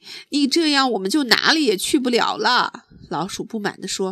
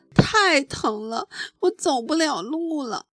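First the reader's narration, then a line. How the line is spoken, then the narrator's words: Crying in pain. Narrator (Chinese): 弗洛格一边哭着说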